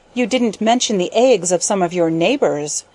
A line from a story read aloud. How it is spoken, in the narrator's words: said she sharply